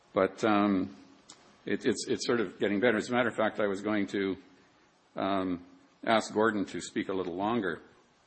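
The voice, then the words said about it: Hoarse voice. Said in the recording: “hoarseness ... I'm still hoarse tonight ... the speaker was actually a little hoarse”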